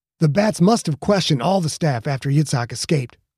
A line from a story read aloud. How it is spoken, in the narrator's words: Quentin said, forcing the words out through a mouth that wanted to scream, not talk